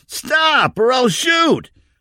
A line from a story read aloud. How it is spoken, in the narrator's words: Brent yelled